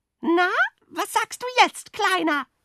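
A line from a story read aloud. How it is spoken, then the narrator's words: Shrieking sparrows. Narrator (German): kreischten die Spatzen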